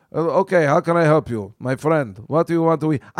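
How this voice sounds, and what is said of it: Put-on foreign waiter accent. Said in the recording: “do you want me to use an accent? I could use an accent ... I don't even know what that accent is”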